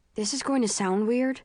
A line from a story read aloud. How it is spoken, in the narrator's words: Will says